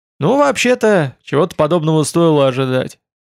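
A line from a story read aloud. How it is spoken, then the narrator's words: Relieved sigh. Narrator (Russian): уже облегченно вздохнул артефактор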